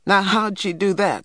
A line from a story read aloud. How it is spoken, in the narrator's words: Stacy laughed